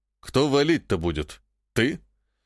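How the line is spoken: Snide question. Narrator (Russian): ехидно спросил Шелагин-младший

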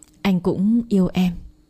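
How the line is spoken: Soft intimate murmur. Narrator (Vietnamese): Phong thủ thỉ với Tuyến

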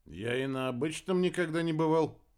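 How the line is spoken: Grumbling. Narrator (Russian): буркнул Кольдер

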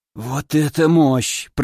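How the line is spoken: Hoarse wheeze. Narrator (Russian): прохрипел

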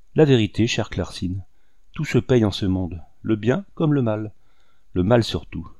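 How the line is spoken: Sad. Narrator (French): ajouta-t-il en baissant tristement la tête

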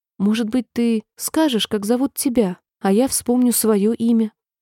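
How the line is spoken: Asked timidly. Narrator (Russian): она робко попросила

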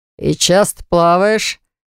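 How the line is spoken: Man asking mockingly. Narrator (Russian): насмешливо поинтересовался мужчина

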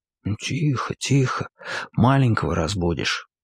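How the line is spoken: Whisper in ear. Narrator (Russian): прошептал ей на ухо

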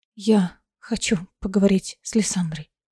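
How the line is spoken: Trembling voice. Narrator (Russian): дрогнувшим голосом объявила она

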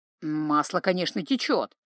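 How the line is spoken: Gloomy agreement. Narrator (Russian): мрачно согласился Джанни

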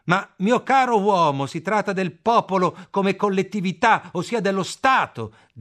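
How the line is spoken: Shouted. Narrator (Italian): grida Müller

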